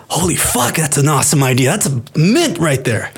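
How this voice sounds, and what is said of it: Put-on affluent upper New York accent. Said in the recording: “that was like Bill and Ted having conversations ... that's my upper New York affluent accent”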